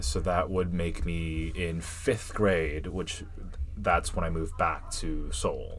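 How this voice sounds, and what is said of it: West Coast American accent. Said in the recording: “they tell me that I have a West Coast accent.”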